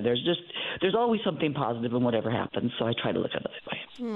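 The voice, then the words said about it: North Dakota accent. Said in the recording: “your little North Dakota accent ... Their accent there”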